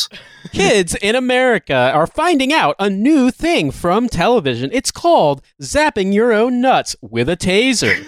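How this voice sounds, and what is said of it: Local TV newscaster voice. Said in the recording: “local newscaster voice”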